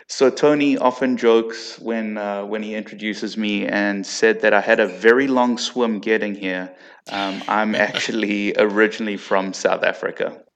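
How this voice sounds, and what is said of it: South African accent. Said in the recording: “that's not an Aussie accent, folks. That is South African.”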